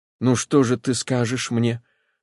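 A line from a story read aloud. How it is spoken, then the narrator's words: Trembling voice. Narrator (Russian): сказал Левин дрожащим голосом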